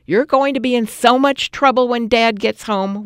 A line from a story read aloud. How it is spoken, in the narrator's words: we shouted